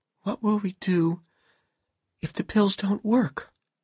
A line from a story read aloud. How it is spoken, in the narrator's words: Dorothy asked him nervously